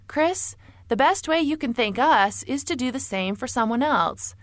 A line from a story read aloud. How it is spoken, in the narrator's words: Kathy kindly said